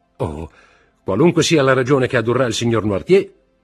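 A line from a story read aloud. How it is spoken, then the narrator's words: Shouted. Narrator (Italian): gridò Morrel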